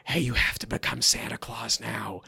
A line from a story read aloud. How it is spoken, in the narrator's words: you whisper in her ear